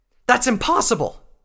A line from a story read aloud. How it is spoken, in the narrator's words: Scarlet cried out